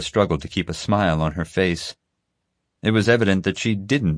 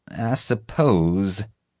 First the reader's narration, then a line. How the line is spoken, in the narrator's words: she said through gritted teeth